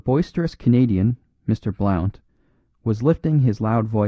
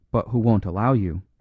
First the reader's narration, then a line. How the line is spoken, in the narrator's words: put in the priest in a low voice